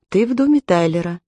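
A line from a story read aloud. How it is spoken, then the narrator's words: Calm and slow. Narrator (Russian): Аманда говорила спокойно и медленно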